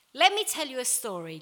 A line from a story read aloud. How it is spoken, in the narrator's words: Jesus said